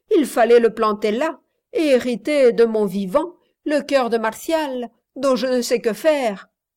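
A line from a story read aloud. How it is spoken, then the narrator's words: Laughing. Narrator (French): dit Reine en riant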